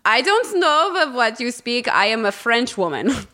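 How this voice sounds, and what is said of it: Weird made-up foreign accent. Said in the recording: “I adopted this like totally weird accent ... With a German accent. ... I don't even know what accent that is.”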